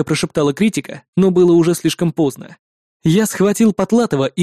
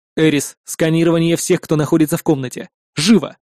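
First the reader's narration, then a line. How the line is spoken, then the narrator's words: Agitated growl. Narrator (Russian): прорычал я, чувствуя, как резко подскакивает мой пульс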